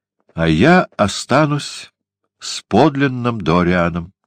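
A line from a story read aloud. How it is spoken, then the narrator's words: Sad. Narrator (Russian): сказал он грустно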